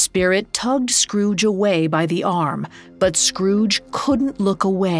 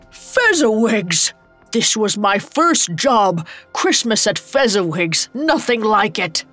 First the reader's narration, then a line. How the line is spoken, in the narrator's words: A familiar laugh roared over the music